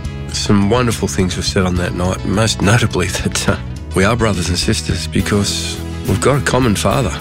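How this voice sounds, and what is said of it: Slightly sore, strained throat. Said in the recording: “I've got a bit of a sore throat,”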